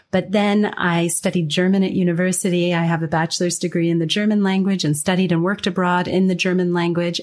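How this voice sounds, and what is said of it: General American accent. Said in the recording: “a very privileged, globally recognized, what's seen as quite general American accent”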